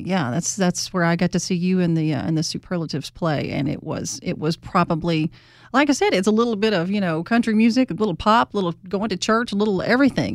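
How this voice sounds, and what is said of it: Southern Mississippi accent. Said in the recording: “You heard her say y'all. ... I don't get people up here with my accent”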